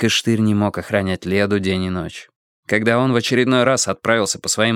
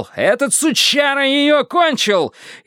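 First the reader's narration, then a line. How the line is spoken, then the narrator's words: Yelling. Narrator (Russian): А Штырь заорал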